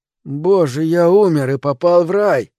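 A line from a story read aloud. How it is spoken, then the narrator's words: Hoarse pained surprised rasp. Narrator (Russian): прохрипел, морщась от боли и с удивлением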